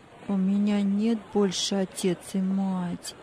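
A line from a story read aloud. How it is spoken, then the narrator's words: Sad child's voice. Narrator (Russian): печально ответил мальчик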